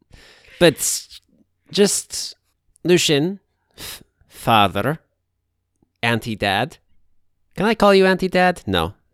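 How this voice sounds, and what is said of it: Put-on Russian accent. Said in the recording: “I don't think Kaz had a Russian accent. ... I literally didn't process that I was speaking in a Russian accent.”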